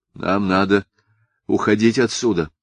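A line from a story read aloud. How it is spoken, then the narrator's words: Breathless exhale. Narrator (Russian): выдохнул отец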